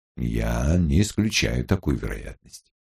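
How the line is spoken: Even, level voice. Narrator (Russian): произнес старший инспектор ровным голосом

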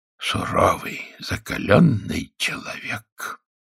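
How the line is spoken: Very quiet. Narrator (Russian): сказал один из зрителей, но сказал так тихо, что поклонник Рузвельта его не слышал

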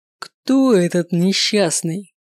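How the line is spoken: Loud roar. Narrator (Russian): взревел отец и, наверное, разбудил весь дом своим воплем

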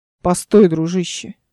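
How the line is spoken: Peaceable giant. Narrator (Russian): Миролюбивым тоном заговорил великан

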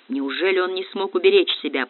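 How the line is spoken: Muttering. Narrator (Russian): пробормотал Баринц

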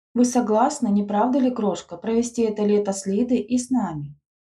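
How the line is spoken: Plain. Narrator (Russian): спросила она

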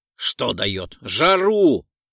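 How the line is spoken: Hoarse wheeze. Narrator (Russian): прохрипел Декс

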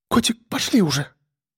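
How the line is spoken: Whisper. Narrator (Russian): Прошептала она

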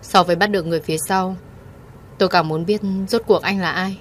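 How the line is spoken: Cold, disgusted. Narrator (Vietnamese): Thượng Quan Mộc hết sức chán ghét giọng điệu này của tiên sinh R, lạnh lùng và nói

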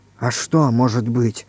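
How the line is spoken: Frightened whisper. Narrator (Russian): бледнее шепнул Иван Иванович

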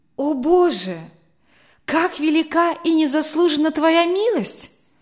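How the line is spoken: Deeply moved exclamation. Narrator (Russian): воскликнул Генрих, глубоко тронутый

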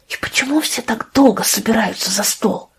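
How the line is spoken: Whispered question. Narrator (Russian): спросила она шепотом Лию

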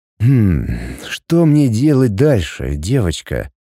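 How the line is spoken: Flirtatious growl. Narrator (Russian): Заигрывающе прорычал

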